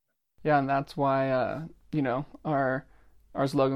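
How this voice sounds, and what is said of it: Usual voice. Nothing is said of it.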